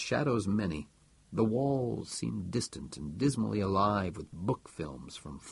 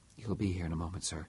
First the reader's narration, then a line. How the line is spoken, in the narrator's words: Davenport said in a low voice